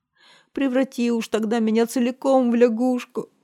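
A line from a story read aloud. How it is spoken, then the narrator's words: Sobbing. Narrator (Russian): рыдала принцесса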